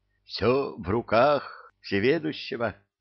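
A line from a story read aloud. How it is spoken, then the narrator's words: Humble sigh. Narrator (Russian): смиренно вздохнул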